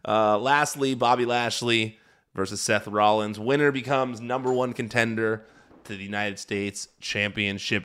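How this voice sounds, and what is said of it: Hoarse, strained voice. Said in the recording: “you can hear me losing my voice”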